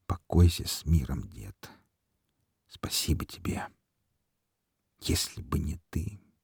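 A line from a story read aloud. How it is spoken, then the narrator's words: Barely audible. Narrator (Russian): проговорил он еле слышно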